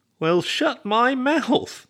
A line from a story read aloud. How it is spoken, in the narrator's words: Ernie exclaimed